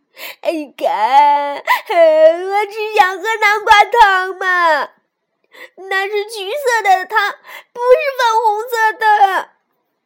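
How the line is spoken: Loud wailing. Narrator (Chinese): 鸭子顿时嚎啕大哭

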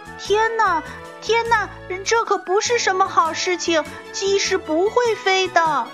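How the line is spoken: Clucking chicks. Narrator (Chinese): 其他的小鸡咯咯的叫着说

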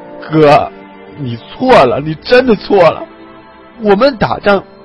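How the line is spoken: Crying. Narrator (Chinese): 王刚哭着说

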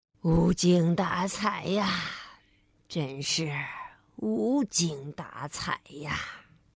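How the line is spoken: Gloomy old man mumbling. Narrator (Chinese): 星期五爷爷仍然愁眉苦脸的，嘟嘟囔囔

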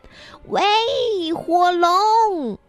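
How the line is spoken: Very loud shout. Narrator (Chinese): 尽可能大声的喊

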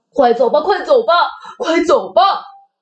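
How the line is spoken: Crying. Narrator (Chinese): 大大外星人哭着说

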